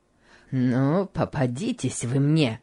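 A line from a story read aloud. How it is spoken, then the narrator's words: Muttering through teeth. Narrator (Russian): бормотал Гейли сквозь зубы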